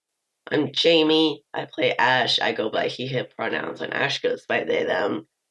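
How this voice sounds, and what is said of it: Rough, sick-sounding voice. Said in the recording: “my voice is a bit rough this episode. I have been horrifically sick for the past few days.”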